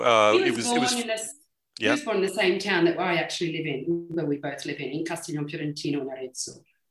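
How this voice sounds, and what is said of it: Australian accent. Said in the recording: “the accent's giving it away a little bit”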